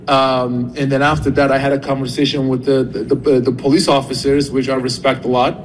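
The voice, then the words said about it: Turkish accent. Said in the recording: “he is originally from Turkey, thus the accent.”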